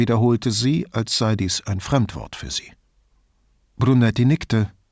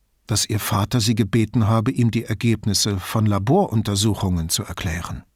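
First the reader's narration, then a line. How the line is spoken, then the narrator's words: Calm answer. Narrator (German): antwortete Brunetti ruhig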